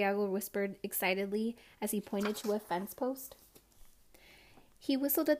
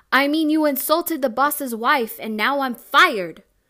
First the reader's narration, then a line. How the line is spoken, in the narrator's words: Theo Isidro shouted back